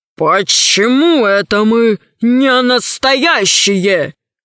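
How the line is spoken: Stern question. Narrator (Russian): спросил строго волшебник

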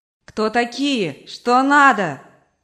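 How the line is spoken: Shouting. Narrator (Russian): кричала мать

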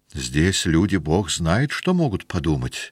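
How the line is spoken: Muttering. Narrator (Russian): бормотал Телянин

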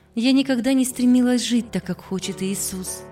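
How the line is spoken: Heavy sigh, confessing. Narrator (Russian): Она тяжело вздохнула и созналась

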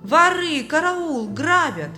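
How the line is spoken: Loud wailing yell. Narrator (Russian): Бедняга громко завопил

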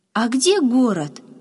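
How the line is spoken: Joyful curious question. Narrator (Russian): радостно сверкнув глазами, заинтересовался Яша

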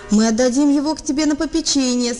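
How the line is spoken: Laughing reply. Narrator (Russian): смеясь, ответил он мальчику

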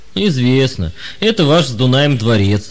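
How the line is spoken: Old man laughing. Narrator (Russian): рассмеялся старик

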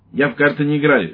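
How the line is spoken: Sharp. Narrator (Russian): резко сказал лейтенант

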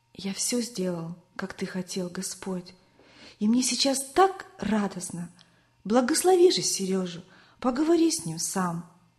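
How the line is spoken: Boy whispering. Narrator (Russian): мальчик шептал Иисусу

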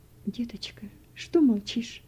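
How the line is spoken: Tearful woman. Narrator (Russian): Сквозь слезы проговорила женщина

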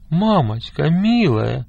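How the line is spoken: Pleading. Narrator (Russian): взмолился Павлик

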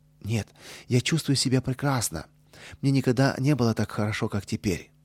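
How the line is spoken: Cheerful reply. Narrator (Russian): весело ответил

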